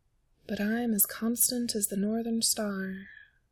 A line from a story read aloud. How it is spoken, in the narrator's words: Simon muttered